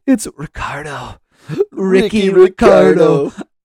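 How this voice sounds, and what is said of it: Poor Ricky Ricardo impression. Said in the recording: “terrible Ricky Ricardo impression”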